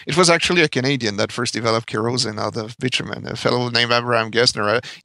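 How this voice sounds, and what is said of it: French-Canadian accent. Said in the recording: “my accent, I'm French-Canadian”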